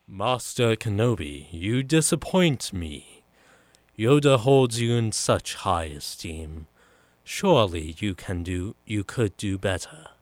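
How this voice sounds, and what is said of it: Count Dooku character voice impression. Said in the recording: “my Count Dooku impression”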